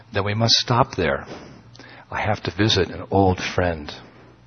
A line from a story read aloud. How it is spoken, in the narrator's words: I said calmly